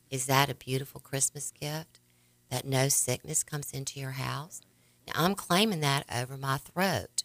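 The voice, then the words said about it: Raspy voice. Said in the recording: “My throat is very raspy, and I cough up, you know, sometimes I have a little tickle there”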